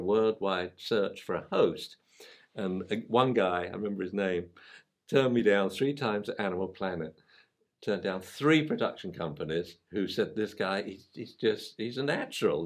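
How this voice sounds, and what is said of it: Foreign accent. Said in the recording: “I had a foreign accent ... I have a foreign accent. It probably happens to be better than yours”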